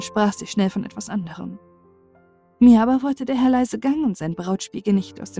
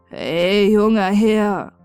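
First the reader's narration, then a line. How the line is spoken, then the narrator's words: Tired. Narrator (German): sagte müde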